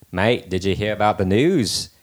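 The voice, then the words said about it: Weak put-on Australian accent. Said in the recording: “I can't do an Australian accent very well, but I'll attempt.”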